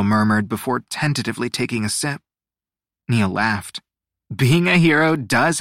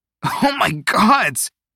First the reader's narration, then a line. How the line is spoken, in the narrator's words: Teo spluttered